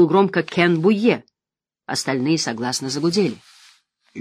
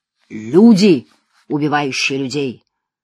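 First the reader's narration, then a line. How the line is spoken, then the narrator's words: Ominous tone. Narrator (Russian): откликнулся торговец зловещим тоном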